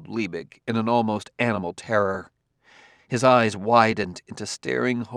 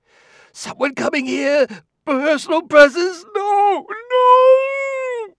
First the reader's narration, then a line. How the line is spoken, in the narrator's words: The second no was a shriek